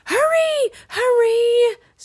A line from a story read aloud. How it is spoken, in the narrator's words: screamed Annie